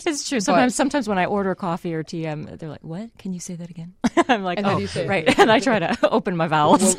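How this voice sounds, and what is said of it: Canadian accent. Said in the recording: “I'm Canadian from Winnipeg ... we can dissect each other's accents ... be completely Canadian”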